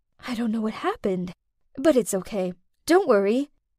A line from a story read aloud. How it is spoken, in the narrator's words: whispered